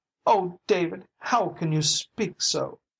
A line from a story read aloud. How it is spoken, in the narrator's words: sobbed